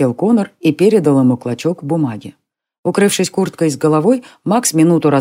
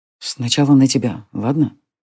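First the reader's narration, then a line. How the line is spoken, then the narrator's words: Whisper. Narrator (Russian): прошептал Джари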